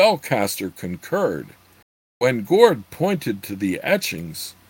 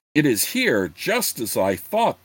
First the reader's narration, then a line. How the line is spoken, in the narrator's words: the wizard exclaimed excitedly